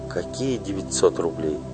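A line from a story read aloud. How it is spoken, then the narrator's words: Quiet question. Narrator (Russian): тихо спросила Паша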